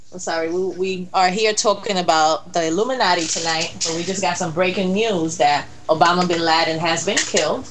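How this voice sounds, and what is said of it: Puerto Rican accent. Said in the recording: “it's my Puerto Rican accent.”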